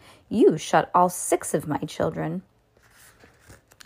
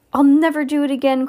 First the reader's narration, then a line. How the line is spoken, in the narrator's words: cried Mr